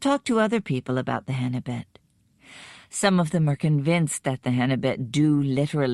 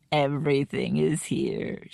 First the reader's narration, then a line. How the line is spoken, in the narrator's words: repeated with a comfortable little laugh